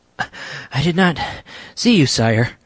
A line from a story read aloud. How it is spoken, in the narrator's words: panted the man